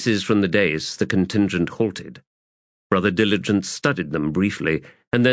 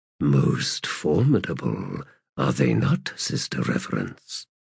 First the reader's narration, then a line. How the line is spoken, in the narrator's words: Brother Diligence murmured